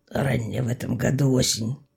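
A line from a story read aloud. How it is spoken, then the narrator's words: Husband grumbling. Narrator (Russian): буркнул муж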